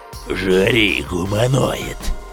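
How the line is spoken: Reptilian growl. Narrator (Russian): зарычал змееподобный ящер

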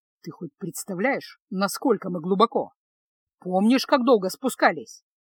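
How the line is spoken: Growled. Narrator (Russian): прорычал Кайл

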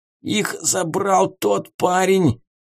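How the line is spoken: Strangled wheeze. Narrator (Russian): кое-как прохрипел Сонг, чувствуя, как хватка все больше усиливается, и вот-вот ему просто сломают шею

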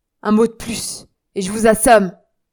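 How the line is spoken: Young man's menacing growl. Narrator (French): gronda le jeune homme d'une voix menaçante

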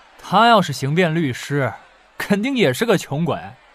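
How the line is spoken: Drunk, grinning. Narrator (Chinese): 庞胜男已经喝高了，笑嘻嘻地

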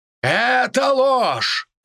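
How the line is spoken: Shouting emperor. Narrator (Russian): крикнул император

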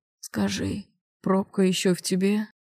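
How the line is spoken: Ragged breath into ear. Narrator (Russian): рвано выдохнул мужчина мне на ухо

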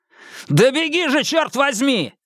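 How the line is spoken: Barking shout. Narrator (Russian): рявкнул Макар

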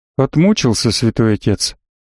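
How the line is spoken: Sad. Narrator (Russian): печально произнес Тиль Веринвен

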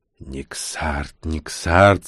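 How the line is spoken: Dejected sigh. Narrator (Russian): сокрушенно вздохнул Велсайт

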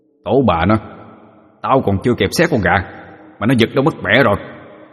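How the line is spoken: Angry. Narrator (Vietnamese): tức giận nói

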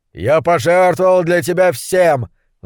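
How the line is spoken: Roar. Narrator (Russian): взревел он

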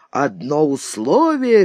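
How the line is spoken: Animal-like bark. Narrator (Russian): рявкнул как зверь

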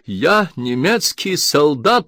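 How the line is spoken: Shrieking. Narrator (Russian): взвизгнув, сказал он

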